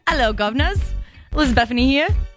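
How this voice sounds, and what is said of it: Put-on British accent. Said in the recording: “In my British accent for the day”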